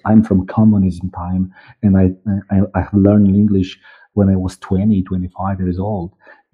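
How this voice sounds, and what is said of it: East European accent. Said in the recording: “this beautiful East European accent which I have”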